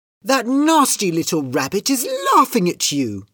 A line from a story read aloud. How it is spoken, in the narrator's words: cried Kitty